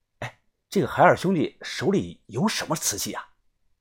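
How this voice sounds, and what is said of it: Quiet, hushed question. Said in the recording (Chinese): “小声问”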